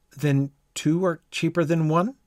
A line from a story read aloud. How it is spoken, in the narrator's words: Alice said in a surprised tone